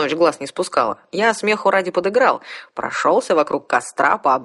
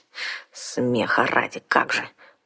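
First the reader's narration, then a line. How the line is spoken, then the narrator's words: Embarrassed unconvinced grumble, young woman. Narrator (Russian): проворчала смущенная, но ничуть не убежденная девушка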